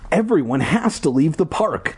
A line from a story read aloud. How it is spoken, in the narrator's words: Ashley cried